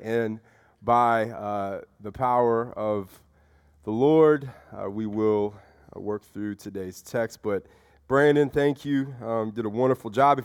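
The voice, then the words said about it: Slightly raspy congested voice. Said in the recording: “if you can hear my voice is still a little raspy ... caught a little head congestion, sinus infection”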